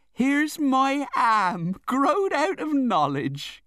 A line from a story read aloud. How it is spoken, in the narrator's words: cried Peggotty